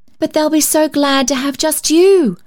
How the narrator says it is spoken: cried Polly

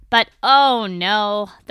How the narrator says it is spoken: the praying mantis growls again

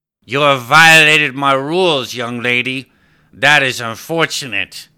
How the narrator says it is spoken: slurred

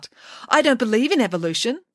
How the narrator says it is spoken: Matilda Vos Nevers called out

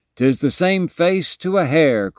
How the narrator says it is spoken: cried one man for joy

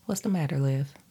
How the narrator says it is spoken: he asked

